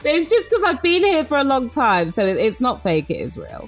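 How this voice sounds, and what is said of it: British accent with slight American twang. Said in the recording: “Obviously British, right? You can tell by the accent. It's got a slight American twang. It's not fake. It's my real accent now.”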